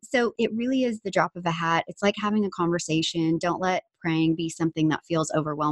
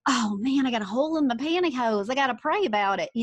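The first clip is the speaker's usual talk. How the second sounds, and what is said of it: Put-on unidentified accent. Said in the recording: “I don't know what that accent was, but it sure did just come out.”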